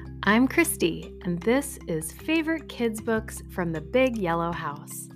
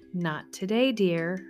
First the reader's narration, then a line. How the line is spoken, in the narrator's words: sighed